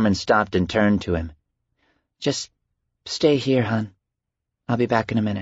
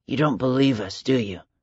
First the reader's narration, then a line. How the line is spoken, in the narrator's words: Michael asked softly